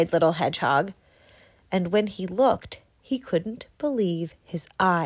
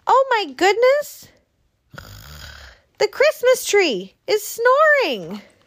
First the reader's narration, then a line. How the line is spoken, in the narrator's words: Mouse cried